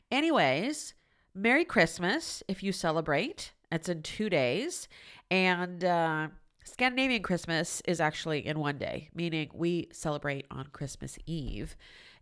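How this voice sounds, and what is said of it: Nasal, congested voice from a cold. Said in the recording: “if I sound a little weird, it's because I have yet another cold ... I apologize for the sound of my nasally voice”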